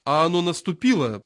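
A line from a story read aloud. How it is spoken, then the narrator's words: Angry repetition. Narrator (Russian): повторил маршал сердито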